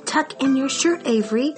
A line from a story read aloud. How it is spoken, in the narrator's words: cried Mrs